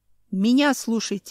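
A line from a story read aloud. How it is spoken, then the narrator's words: Barked. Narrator (Russian): рявкнул Семен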